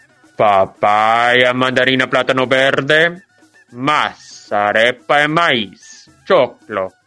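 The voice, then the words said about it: Imitates street vendors calling out. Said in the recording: “my best imitation of what those vendors sounded like”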